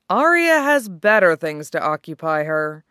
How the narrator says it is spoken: Obara says

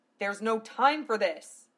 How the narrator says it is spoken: Val growled

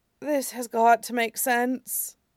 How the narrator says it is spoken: Sokka said under his breath

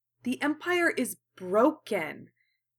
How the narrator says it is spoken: Kaoru said fiercely

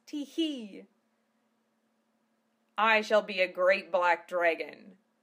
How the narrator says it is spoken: Val laughed

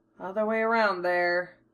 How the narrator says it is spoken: he can't help but mutter

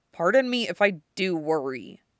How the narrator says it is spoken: Wu Fei muttered

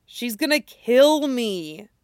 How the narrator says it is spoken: whines

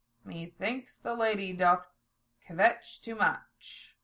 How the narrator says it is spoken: Zell muttered in an undertone to Lena

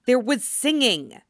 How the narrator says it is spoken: Dame Geller hisses to her neighbor

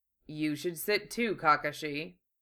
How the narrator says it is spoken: Gai said archly

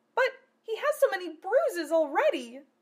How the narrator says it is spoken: she cried

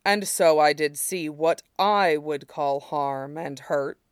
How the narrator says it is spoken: Shidan said dryly

